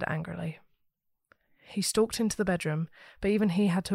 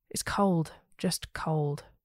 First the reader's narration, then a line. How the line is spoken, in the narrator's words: sighed